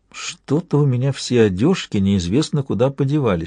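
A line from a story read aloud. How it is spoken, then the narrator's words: Whispered in ear. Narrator (Russian): шепнула ему на ухо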